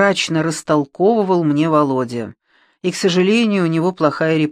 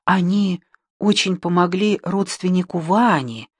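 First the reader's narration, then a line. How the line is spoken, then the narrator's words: Whisper. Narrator (Russian): прошептала я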